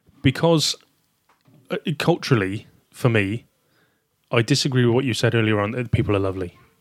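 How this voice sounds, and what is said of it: Southern English accent. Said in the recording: “you got a southern accent there, haven't you?”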